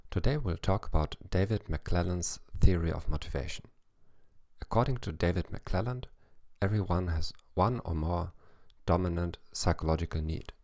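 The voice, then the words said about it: English with a German accent. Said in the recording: “in English with a German accent.”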